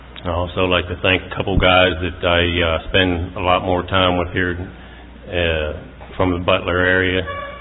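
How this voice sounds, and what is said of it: Slight southern US accent. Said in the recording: “Y'all might be able to hear a little southern accent.”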